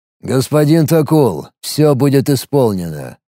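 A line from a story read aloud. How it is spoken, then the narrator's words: Cold, impassive. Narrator (Russian): холодным, бесстрастным тоном произнес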